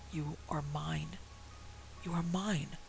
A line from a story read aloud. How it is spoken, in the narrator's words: someone with whom he could not see whispering in his ear